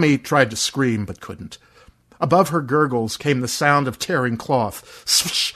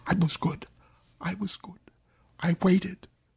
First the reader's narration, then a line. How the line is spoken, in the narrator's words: Her mouth was all broken, though, so she could only whisper